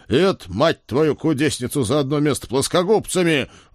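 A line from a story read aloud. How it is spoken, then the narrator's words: Roared. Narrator (Russian): взревел я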